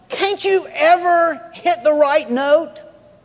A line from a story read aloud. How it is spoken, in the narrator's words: you yell out